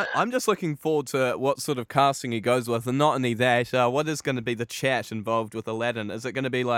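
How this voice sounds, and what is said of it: Usual voice. Nothing is said of it.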